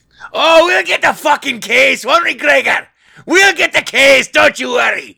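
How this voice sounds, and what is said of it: Put-on Irish accent, sounding Scottish. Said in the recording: “the IRA terrorist. So that my accent's a little more Scottish than Irish”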